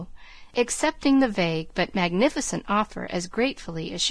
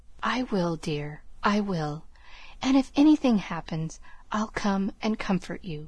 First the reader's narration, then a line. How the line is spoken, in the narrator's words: whispered Laurie